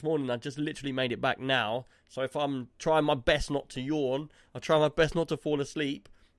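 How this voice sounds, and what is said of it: Tired, slightly slurred voice. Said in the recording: “you can probably tell that my voice is like a bit slurry because I'm so tired”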